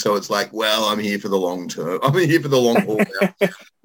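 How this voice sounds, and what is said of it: Mellowed Australian accent. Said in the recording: “the Australian accent is kind of stuck... Mellowed somewhat”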